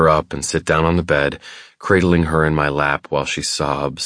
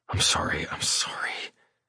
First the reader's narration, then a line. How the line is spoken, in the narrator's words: whisper, feeling like an asshole